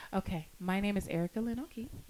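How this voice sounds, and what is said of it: Put-on sultry podcast voice. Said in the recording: “What is this fake-ass sultry? ... podcast voice”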